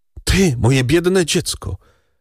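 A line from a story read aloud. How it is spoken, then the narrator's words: Cried out. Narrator (Polish): zawołała Mercedes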